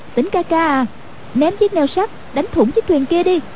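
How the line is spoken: Calling out. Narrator (Vietnamese): kêu lên

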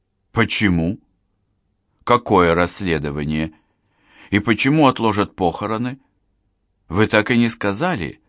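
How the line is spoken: Confused mumble. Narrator (Russian): растерянно пробормотала Марина

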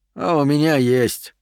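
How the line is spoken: Sigh. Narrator (Russian): вздохнул Стерлинг

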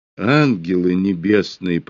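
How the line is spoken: Good-natured ironic grumble. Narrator (Russian): проворчала она, и добрая улыбка попеременно сменялась на ее лице иронической насмешкой

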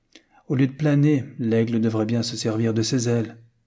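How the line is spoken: Plain. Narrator (French): dit Madame Tristram

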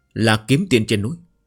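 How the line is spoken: Trembling, despairing woman. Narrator (Vietnamese): một nữ nhân cao giáo dung mạo xinh đẹp, tràn đầy tuyệt vọng run rẩy nói

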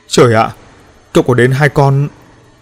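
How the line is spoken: Tense stammering. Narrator (Vietnamese): Ánh mắt của An Ninh cũng trở nên căng thẳng, lắp bắp nói

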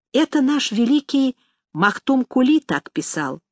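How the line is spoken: Quiet explanation. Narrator (Russian): пояснил мне тихонько Амет

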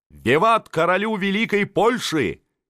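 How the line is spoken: Crowd shouting. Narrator (Russian): кричали французы

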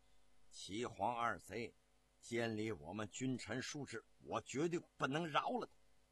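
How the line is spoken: Teeth-gritted fury. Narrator (Chinese): 朱棣咬牙切齿地说

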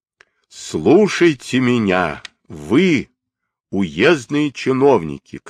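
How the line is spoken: Thunderous shout. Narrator (Russian): крикнул громовым голосом

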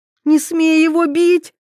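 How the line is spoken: Shrill shriek. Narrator (Russian): взвизгнула Ивета

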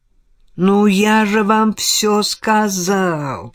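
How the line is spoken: Drawled. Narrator (Russian): протянул Мерчант

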